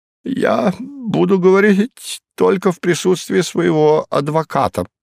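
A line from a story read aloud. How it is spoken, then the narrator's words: Cracked-voice announcement. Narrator (Russian): объявил он надтреснутым голосом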